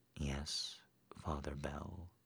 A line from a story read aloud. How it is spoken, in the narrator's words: she whispered instead